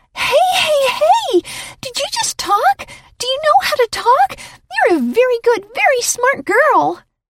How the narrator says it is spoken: The little dog cried

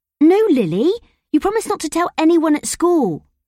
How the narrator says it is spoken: I said fiercely

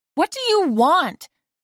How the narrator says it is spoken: I shouted at Professor Catala

